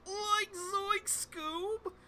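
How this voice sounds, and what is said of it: Shaggy cartoon character voice impression. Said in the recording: “my Shaggy impression”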